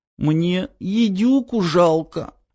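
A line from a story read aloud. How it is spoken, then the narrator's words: Tearful sob. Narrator (Russian): всхлипнула, вытирая слезы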